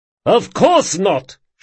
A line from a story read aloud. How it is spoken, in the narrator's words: shouted Lavaris